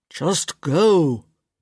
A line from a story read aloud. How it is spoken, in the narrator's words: Gareth practically growled